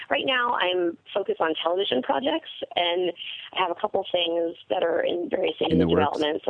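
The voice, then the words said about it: Hoarse, fading voice. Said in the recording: “I'm losing my voice kind of because it was so crazy last night”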